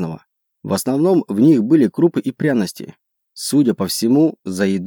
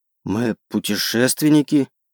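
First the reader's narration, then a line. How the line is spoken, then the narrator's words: Hoarse reply. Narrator (Russian): хрипло ответил я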